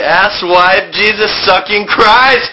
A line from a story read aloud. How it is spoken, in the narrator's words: I screamed